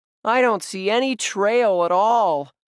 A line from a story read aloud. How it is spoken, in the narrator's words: Josh wailed